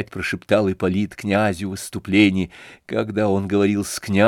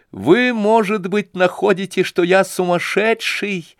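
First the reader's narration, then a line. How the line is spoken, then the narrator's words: With a strange laugh. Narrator (Russian): странно засмеявшись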